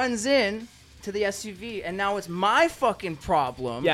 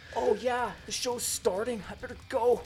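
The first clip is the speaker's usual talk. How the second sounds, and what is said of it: Imitates another person's voice. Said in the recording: “an amazing impersonation.”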